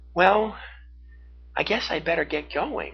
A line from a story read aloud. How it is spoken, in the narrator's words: she said sadly